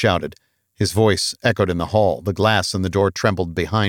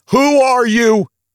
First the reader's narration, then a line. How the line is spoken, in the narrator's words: He yelled